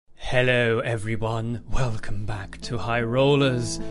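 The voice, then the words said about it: Spooky put-on voice. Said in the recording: “This is my spooky voice ... I'll stop doing this voice”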